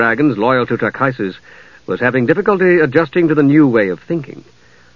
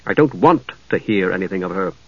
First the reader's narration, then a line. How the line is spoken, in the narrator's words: Steele replied, still in the same harsh tones